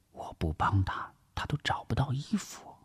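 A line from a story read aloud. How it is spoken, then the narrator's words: Whisper. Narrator (Chinese): 王碧奎悄声的耳语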